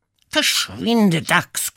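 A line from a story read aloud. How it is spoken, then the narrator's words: Growling vixen. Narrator (German): knurrte die Füchsin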